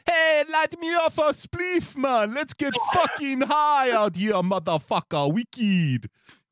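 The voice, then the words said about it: Exaggerated put-on West Indian accent. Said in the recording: “do a Brian Lara impression ... ham it up more ... West Indian”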